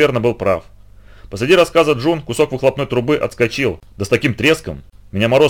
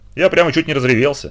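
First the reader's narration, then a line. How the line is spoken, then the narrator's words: Plain. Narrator (Russian): сказал Билл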